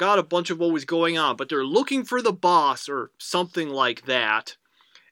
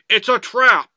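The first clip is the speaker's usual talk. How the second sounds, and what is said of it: Imitation of Admiral Ackbar. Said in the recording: “I can't do the Akbar voice right”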